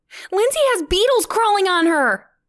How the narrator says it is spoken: Sylvia squealed to her friends

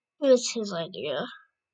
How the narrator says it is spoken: Kestrel snarled

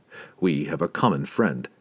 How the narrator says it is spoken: Drizzt said softly to Durdamont

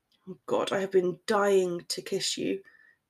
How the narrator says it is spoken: he muttered

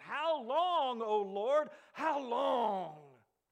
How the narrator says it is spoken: Augustine cried out

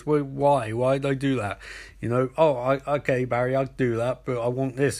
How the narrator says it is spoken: Captain Cold laughs and goes

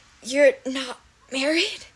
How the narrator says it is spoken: said weakly

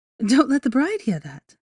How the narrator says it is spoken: she scolded playfully

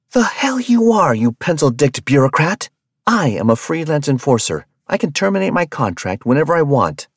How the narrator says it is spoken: Rabia screamed

